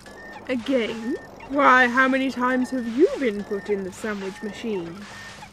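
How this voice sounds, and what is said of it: Posh upper-class English accent. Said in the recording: “You sounded really posh just then.”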